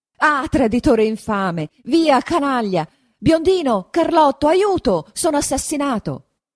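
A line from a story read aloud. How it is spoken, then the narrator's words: Screaming for help. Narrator (Italian): grida Don Rodrigo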